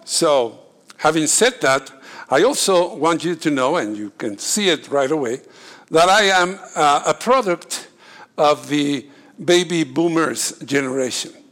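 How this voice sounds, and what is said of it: Very strong accent. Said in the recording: “You have to bear with my accent. I have a very strong accent. ... My accent is in my speech”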